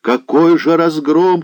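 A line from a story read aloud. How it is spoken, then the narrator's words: Shout. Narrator (Russian): кричал он Захару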